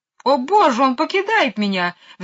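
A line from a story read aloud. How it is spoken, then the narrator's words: Shrill squeal. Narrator (Russian): взвизгнула мисс Ларк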